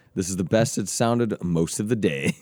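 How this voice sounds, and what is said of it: Raspy, worn-out voice. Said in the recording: “my voice just holds up ... it's super shot ... It's got that sexy rasp ... It's very sultry ... Nice raspiness to it”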